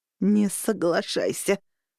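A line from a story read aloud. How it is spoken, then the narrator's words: Strained, forced words. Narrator (Russian): выдавила Виктория, прижимая окровавленную руку к груди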